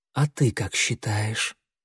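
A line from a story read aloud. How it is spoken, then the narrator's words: Whisper. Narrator (Russian): прошептала синяя звезда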